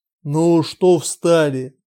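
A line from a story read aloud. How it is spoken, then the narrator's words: Deliberately rough shout. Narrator (Russian): выкрикнул он нарочито грубо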